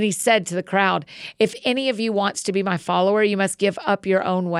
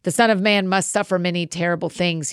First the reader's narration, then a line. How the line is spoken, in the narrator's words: said